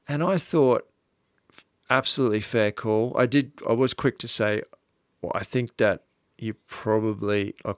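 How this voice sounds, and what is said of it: Mild Australian accent. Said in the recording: “we don't have a heavy Australian accent, in my opinion ... not as Australian as you can get.”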